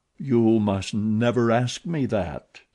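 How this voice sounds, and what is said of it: Gloomy voice. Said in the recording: “he said in a gloomy voice.”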